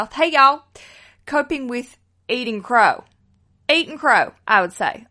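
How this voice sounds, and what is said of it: Put-on Southern US accent. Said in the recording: “to use a phrase from the South ... Oh God, I love doing a Southern accent.”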